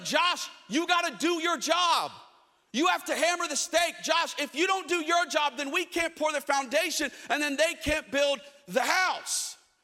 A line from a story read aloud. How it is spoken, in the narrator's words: They started yelling